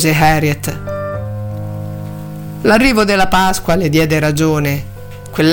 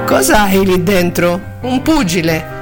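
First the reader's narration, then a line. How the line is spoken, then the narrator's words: Joking, slightly embarrassed question. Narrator (Italian): le chiese William in tono scherzoso, anche se lievemente imbarazzato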